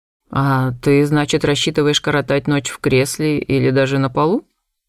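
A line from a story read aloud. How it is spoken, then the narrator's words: Mocking clarification. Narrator (Russian): насмешливо уточнил он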